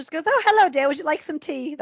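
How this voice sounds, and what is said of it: Bad put-on English accent. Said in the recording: “That's my really bad English accent.”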